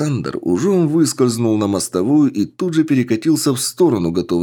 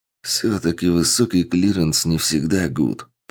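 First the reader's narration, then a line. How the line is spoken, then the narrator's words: Whisper. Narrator (Russian): прошептал подполковник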